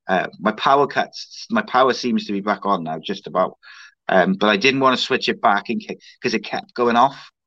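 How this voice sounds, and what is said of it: Hoarse, strained voice. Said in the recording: “I'm also losing my voice”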